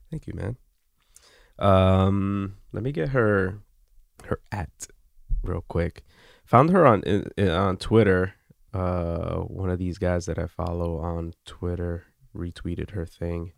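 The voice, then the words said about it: Raspy, groggy voice. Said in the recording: “I sound like a little raspy or groggy today”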